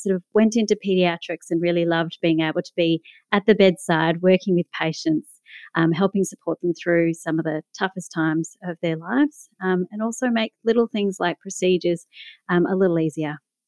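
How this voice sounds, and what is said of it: Australian accent, Melbourne. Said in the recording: “you can probably tell from my accent that I'm from Melbourne, Australia.”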